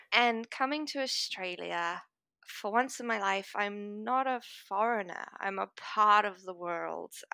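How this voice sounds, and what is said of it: Unusual mixed multicultural accent. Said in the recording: “I am a multicultural person. I am from a lot of different places. I have the weirdest accent in the world sometimes.”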